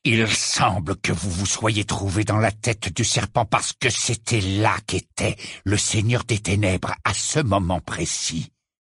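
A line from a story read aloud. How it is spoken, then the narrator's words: Growling. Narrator (French): gronda Rogue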